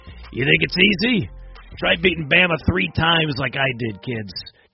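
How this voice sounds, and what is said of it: Imitates another person's voice. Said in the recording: “That's a terrible Gus Malzahn impersonation. He talks nothing like that, but I just thought I wanted to go into character there”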